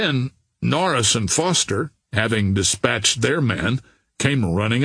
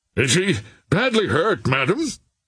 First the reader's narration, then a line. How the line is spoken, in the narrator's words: cried Captain Norris